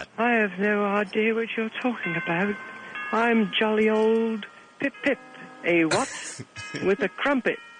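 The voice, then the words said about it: Put-on British accent. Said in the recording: “needs to speak with a British accent ... You don't have to talk like that.”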